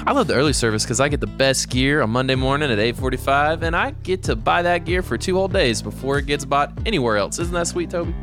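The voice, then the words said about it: Put-on Southern country drawl. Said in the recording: “why do you have a country drawl all of a sudden? ... when I'm trying to be persuasive, I just hit that Southern drawl”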